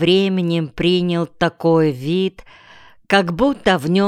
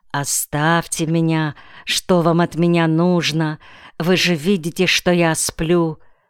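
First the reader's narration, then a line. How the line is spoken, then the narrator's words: Terrified shivering child mumbling. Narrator (Russian): Промокший, дрожащий, насмерть перепуганный ребенок, отчаянно стуча зубами, бормотал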